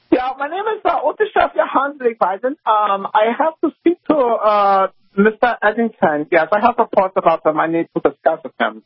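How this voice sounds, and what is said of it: Mixed put-on foreign accent. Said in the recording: “Are you, like, mixing an Asian accent with a Jewish impression?”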